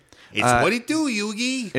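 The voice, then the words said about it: Cartoon character voice impression. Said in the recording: “My Joey Wheeler impression? ... it was spot on ... Way better than it needed to be.”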